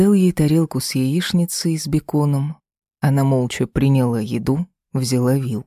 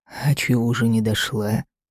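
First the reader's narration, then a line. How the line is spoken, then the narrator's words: Sighing. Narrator (Russian): вздохнула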